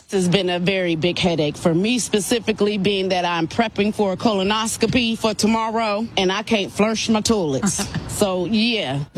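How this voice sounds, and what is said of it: Strong regional accent, attitude. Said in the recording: “I love her accent so much... And the attitude is strong.”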